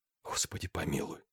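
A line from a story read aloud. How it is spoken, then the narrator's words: Whisper. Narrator (Russian): прошептал Денис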